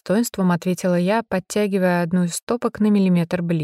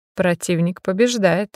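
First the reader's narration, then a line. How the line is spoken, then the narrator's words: Snort. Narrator (Russian): хмыкнул он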